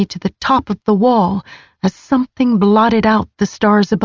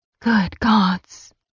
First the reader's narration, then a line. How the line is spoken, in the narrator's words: I whispered